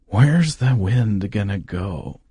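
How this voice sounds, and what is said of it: Imitates another person's voice. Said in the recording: “How was my Paul Giamatti impression?”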